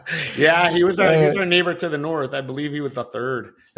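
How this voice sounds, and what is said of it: Put-on Canadian accent. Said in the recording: “That was my Canadian accent.”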